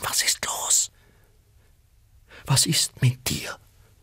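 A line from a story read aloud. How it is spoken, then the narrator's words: Whispered. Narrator (German): flüsterte sie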